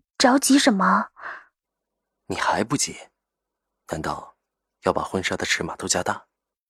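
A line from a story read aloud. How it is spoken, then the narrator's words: Smiling, teasing. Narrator (Chinese): 赵以静眉眼含笑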